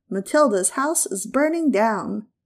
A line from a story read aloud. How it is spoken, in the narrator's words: roaring